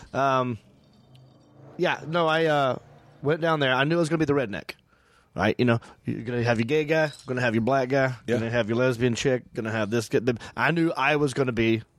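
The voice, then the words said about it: Southern American accent. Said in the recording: “I'm from the South, so people think I might be. And this accent, it comes with those tones.”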